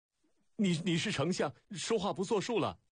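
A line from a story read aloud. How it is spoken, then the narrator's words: Stunned, angry shout. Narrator (Chinese): 楚使愣怔间黑着脸喊起来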